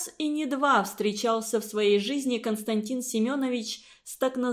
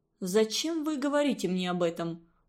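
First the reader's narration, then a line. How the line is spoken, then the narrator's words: Cold question. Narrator (Russian): холодно спросил Константин Семенович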